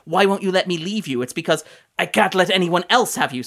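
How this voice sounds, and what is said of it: Put-on accent, poorly done. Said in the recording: “my accent is only marginally better than Kenneth Branagh's in this movie”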